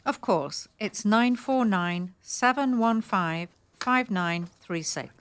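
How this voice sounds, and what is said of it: English accent. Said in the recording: “Gotta love that English accent.”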